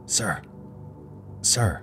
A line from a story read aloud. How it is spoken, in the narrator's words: whispered the dying man